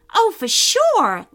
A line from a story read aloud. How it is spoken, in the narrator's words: Lila said excitedly